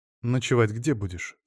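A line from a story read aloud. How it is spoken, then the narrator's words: Plain. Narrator (Russian): спросила Валентина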